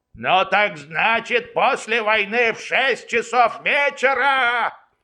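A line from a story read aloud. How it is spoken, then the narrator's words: Yelling. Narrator (Russian): орал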